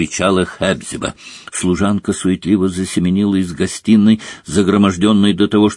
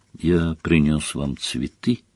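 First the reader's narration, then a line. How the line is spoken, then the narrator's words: Quiet. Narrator (Russian): тихо сказал он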